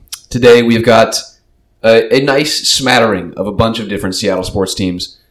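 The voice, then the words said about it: Slightly hoarse voice. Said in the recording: “as you can hear, my voice is a little hoarse from this last weekend of something. Being sick”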